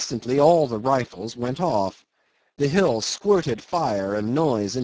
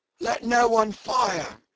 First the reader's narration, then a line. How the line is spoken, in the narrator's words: shouted Brown